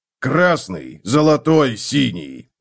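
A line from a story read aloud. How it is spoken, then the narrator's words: Barked. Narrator (Russian): рявкнул Готрек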